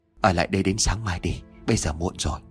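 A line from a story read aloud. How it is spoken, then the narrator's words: Soft, quiet. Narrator (Vietnamese): Bảy Dao mới khẽ nói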